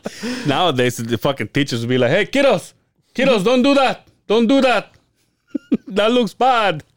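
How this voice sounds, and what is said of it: Put-on Latin accent, sounds Middle Eastern. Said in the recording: “my Latin accent ... I sound like Middle Eastern ... A white guy trying to sound like a Latin fella”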